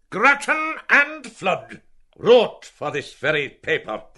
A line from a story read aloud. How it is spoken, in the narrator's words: the editor cried in his face